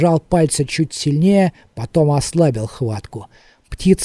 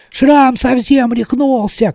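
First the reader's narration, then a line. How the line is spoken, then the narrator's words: Shouting stable hand. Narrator (Russian): кричал конюк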